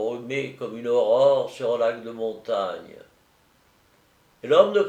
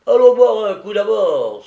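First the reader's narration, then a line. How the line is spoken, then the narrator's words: Exclamation. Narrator (French): s'écria-t-il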